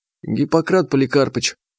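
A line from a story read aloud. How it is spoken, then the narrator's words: Quiet request. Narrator (Russian): тихонько попросила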